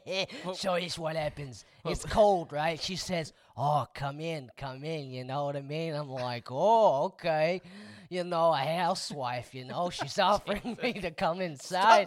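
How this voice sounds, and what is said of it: Put-on New York Italian accent. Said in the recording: “Stop doing the voice. ... It feels so much dirtier with the voice. ... No one who sounded like a New York Italian ever.”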